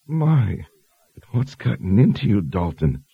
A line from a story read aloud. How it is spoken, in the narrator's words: She moaned